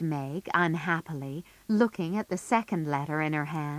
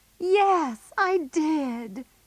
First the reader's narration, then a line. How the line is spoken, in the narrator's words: cried Meg, hiding her face again